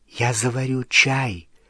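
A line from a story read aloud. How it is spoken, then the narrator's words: Whispering. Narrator (Russian): шепотом сказала Гермиона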